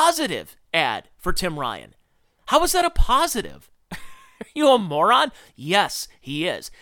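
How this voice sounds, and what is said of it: Usual voice. Nothing is said of it.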